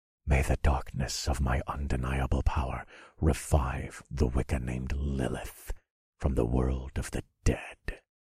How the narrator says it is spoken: I whispered

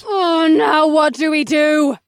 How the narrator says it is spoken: Vanessa screamed as they struggled to hold on to the crumbling stones

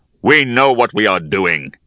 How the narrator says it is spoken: he growled

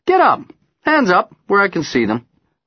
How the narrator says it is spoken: tell cheerfully

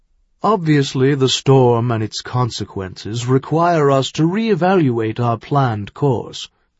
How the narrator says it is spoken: Malachi continued in his deep, resonant voice

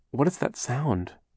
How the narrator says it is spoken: Violet asked nervously

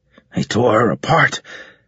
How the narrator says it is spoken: Carlos kept muttering

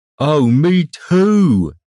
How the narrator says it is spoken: exclaimed Ander

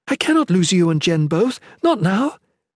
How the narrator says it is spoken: the Shalane exclaimed

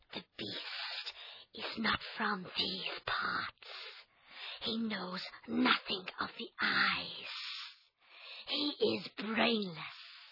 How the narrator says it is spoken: She whispered to him

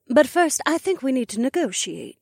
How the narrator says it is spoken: Emma said in her prim and proper voice

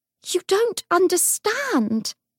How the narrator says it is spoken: Grace cried

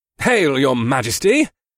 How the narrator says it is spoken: the hawk-faced general called out

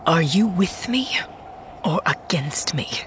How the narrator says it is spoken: she whispered

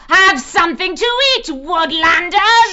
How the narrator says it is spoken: She shrieked

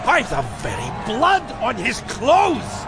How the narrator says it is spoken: shouted the chief of the Argyles

